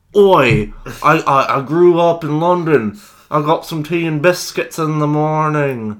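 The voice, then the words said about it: Put-on London accent. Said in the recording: “You are full of accents.”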